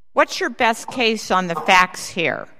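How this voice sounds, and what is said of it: Loud, stern mom voice. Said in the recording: “I have my mom voice on, so it's really loud.”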